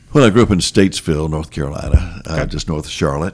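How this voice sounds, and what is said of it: Polished broadcaster radio voice. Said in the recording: “you'll hear he's got a radio voice.”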